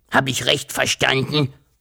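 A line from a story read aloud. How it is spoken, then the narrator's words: Dragon hissing. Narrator (German): fauchte der Drache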